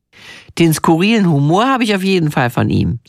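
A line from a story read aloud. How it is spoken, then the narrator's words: Plain. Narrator (German): sagt er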